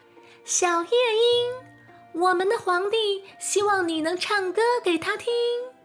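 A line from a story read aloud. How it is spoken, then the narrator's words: Little girl calling. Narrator (Chinese): 小女孩喊着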